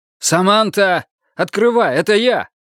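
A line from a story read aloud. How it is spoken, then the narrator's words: Man's shout. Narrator (Russian): Пришедший мужчина подергал дверь и крикнул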